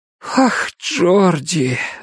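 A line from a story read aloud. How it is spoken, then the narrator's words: Breathless. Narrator (Russian): выдохнул Том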